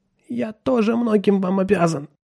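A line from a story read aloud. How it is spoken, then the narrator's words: Hoarse. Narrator (Russian): хрипло проговорил он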